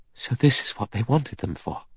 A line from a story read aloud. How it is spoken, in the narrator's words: Vera whispered